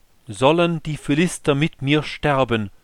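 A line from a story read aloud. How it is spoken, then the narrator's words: Calling out. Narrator (German): rief er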